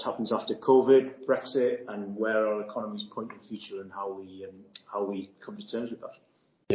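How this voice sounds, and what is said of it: Posh Geordie accent. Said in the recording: “you're clearly from the accent. You're from the Northeast ... probably a posh Geordie, I would say, in terms of the accent”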